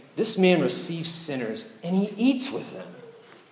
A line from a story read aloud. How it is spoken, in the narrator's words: They're muttering, saying